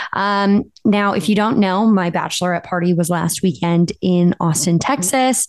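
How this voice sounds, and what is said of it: Slightly raspy voice. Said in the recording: “my voice is a little raspy... It's a little sexy... it's from yelling so much, from just scream singing”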